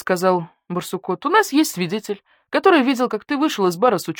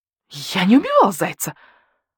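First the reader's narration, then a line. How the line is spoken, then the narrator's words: Shrill squeal. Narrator (Russian): взвизгнул койот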